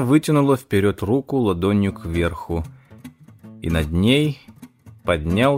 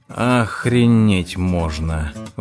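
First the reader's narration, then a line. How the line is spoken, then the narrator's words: Breathless exclamation. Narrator (Russian): выдохнул я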